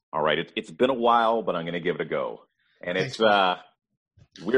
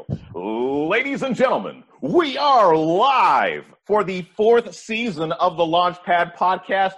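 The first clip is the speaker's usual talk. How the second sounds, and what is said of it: Booming ring-announcer style voice. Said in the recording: “You want a Bruce Buffer? ... Give me that voice.”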